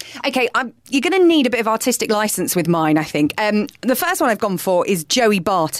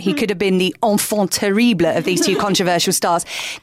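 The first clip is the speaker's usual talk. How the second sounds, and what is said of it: Put-on French accent. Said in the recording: “In my best Joey Barton French accent”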